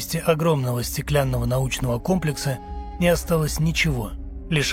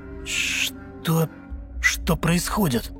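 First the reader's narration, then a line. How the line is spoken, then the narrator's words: Whispering to oneself. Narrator (Russian): Шептал я самому себе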